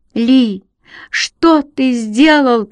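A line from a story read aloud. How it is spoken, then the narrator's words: Shouting woman. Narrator (Russian): кричала она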